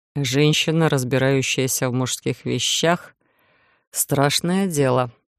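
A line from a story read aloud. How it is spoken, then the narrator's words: Barely audible mutter. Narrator (Russian): едва слышно пробормотал стоящий рядом Иден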